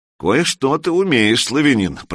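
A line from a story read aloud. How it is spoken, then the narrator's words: Grumbling chieftain. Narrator (Russian): проворчал ярл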